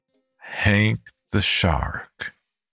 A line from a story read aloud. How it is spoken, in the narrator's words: I repeated slowly